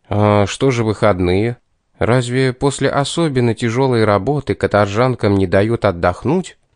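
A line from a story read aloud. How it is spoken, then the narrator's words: Plain question. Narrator (Russian): спросил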